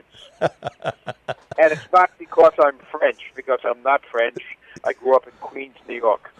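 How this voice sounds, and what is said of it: New York Eastern Seaboard accent. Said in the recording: “it sounded like a New York Eastern Seaboard accent”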